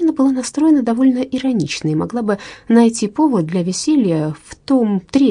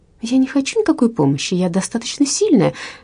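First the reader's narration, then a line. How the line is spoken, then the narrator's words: Cheerful exclamation. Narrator (Russian): весело воскликнула Верина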